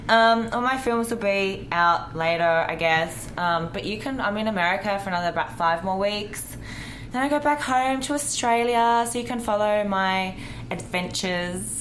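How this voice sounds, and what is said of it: Distinctive foreign accent. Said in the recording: “Accent is amazing.”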